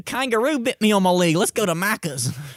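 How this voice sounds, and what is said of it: Put-on Australian accent. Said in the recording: “you have the best Australian accent when you say that phrase ... that's one of my phrases to get into the accent ... that sounds really good”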